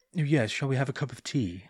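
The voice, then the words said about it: Stereotypical posh British accent. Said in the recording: “not my accent, but the one that the world thinks is the British accent... the one that talks a little bit like this”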